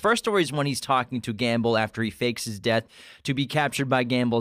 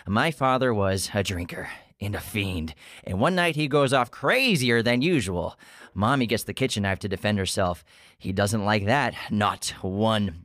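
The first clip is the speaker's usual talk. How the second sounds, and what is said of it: Joker impression. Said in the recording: “I think you have a pretty good Joker impression.”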